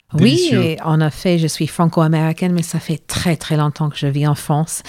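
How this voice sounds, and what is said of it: Slight American accent in French. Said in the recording (French): “Vous êtes franco-américaine, d'où un, petit accent”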